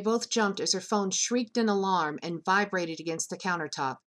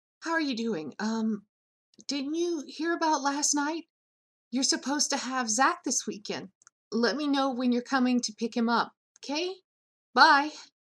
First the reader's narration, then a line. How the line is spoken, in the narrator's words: began in a trembling voice